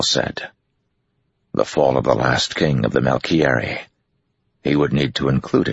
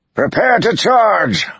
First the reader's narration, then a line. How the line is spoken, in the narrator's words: Arganda yelled